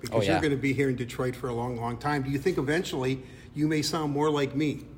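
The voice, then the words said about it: Nasally Midwestern American accent. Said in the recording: “that's a nasally Midwestern accent”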